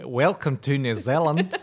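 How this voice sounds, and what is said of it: Attempted New Zealand accent. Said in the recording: “I sound exactly like that if I try to do like a New Zealand accent”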